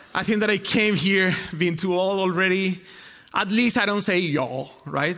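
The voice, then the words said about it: Hybrid Spanish and Costa Rican accent. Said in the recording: “you don't have that accent, the Spaniard accent ... I started to imitate the Costa Rican accent. And now I don't know what accent I have. It's a weird one. I'm kind of a hybrid.”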